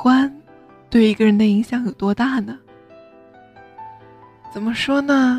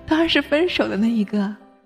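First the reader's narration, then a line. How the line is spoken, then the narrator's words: Laughing. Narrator (Chinese): 张岩笑着说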